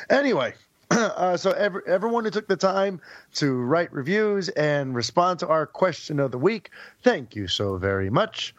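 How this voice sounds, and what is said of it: Hoarse, worn-out voice. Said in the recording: “my voice is still shot”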